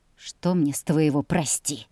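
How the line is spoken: Grumbling, straining. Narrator (Russian): проворчала она, кряхтя от натуги

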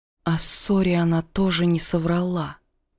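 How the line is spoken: Quiet. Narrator (Russian): тихо сказала я

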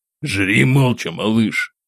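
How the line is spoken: Irritated, curt. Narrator (Russian): Раздраженно бросил Самсон

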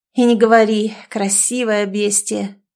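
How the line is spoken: Through teeth, sighing. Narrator (Russian): процедил Андрей, вздохнув

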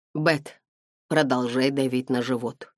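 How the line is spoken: Forcing an even voice. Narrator (Russian): сказала она, пытаясь говорить ровным голосом

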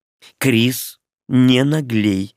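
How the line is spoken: Stern frowning witch. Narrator (Russian): строго сказала ведьма, нахмурившись

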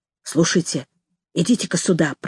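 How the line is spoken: Whisper. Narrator (Russian): прошептал он

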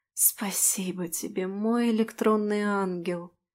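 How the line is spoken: Relaxed sigh. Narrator (Russian): сказала, расслабленно вздохнув

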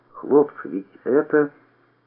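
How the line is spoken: Bewildered whisper. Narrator (Russian): Сашка растерянно прошептал

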